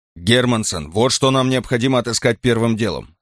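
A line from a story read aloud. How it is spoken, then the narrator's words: Plain. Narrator (Russian): сказал Карл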